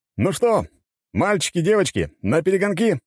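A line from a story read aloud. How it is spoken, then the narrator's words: Excited shout. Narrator (Russian): закричал Есенин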